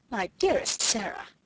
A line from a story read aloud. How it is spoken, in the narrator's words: she exclaimed